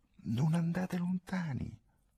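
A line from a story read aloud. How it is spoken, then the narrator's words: Said quietly. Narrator (Italian): Masa disse sottovoce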